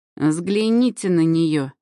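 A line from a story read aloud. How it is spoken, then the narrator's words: Saleswoman's snort. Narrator (Russian): фыркнула продавщица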